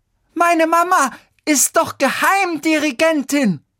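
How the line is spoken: Girl screaming. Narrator (German): schrie jetzt das Mädchen

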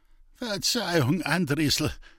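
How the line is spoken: Humiliated groan. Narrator (German): stöhnte der gedemütigte Großbauer

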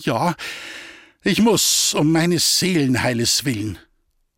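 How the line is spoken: Peasant woman stammering reply. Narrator (German): Stotternd antwortete die Bäuerin

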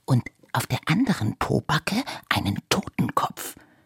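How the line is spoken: Whisper. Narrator (German): flüsterte Iris

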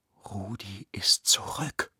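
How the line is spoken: Whispering. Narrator (German): flüsterte Lena ihrem Bruder zu

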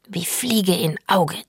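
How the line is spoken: Hissed. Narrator (German): zischt

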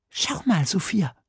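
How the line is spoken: Whispering. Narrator (German): flüsterte Emil

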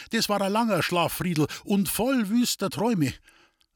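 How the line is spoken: Matron calling out. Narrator (German): rief die Matrone

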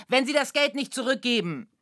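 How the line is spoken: Calling out. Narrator (German): rief er dem Sturkopf zu

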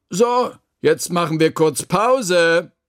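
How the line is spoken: Calling out. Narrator (German): rief da Frau Krüger

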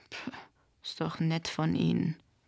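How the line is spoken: Grumbled. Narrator (German): brummte Dave

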